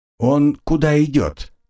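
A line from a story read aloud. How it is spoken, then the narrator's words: Plain. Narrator (Russian): спросила Агнесса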